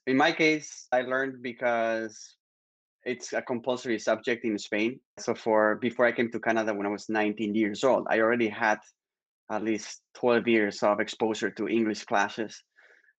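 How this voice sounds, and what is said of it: Spanish accent in English. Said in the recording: “no, I do have an accent ... There's some accents that do very well, like the Spanish accent.”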